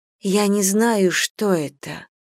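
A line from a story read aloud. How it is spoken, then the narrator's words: Quiet speech. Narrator (Russian): тихо сказала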